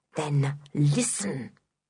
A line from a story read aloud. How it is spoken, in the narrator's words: he hissed